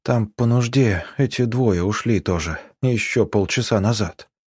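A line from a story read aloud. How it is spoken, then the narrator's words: Sleepy mumble, young man. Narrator (Russian): пробормотал сонливым голосом парень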